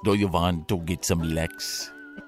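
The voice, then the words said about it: Put-on German accent. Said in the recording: “either a Swedish or a German accent... because I have German heritage, by the way, I could do this”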